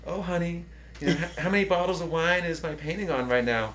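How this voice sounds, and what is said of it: Imitated Southern Texas mother's accent. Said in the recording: “she's from South Texas. She has a very Southern accent.”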